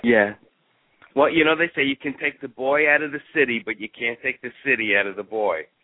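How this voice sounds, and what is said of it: New York Bronx accent. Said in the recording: “you don't have the Texas slur. You're still a little more of the Bronx there ... most of my New York accent still there”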